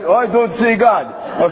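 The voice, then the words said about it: Put-on Russian accent. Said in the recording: “That was my Russian accent.”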